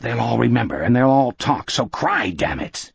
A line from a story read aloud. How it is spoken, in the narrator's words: under his breath the captain hissed